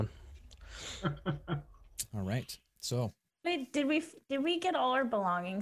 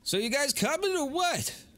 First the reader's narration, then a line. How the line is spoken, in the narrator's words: Smelty yells to you all